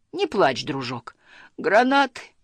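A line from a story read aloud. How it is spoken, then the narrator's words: Sobbing. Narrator (Russian): всхлипывал Сниф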